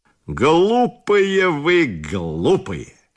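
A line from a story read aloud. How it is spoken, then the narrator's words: Plain. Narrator (Russian): сказал он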